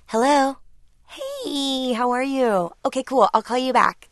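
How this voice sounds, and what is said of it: Higher-pitched telephone voice. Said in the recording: “telephone voice ... There's a full octave goes down once you get off the phone.”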